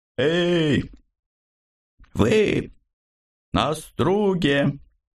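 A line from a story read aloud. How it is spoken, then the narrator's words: Confident shout from afar. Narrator (Russian): уверенно прокричали откуда-то слева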